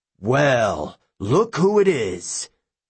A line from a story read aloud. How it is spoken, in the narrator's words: Polydectes sneered